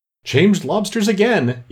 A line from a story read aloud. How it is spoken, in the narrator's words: yelled the Gryphon at the top of its voice